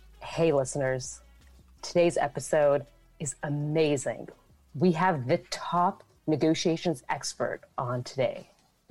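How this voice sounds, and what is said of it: Late-night radio DJ voice. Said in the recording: “do you have a late-night DJ radio voice? ... Pretty good. I think that was pretty good.”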